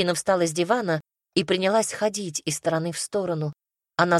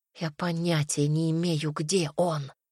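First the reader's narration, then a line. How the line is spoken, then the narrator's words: Quiet reply. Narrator (Russian): тихо ответила Инга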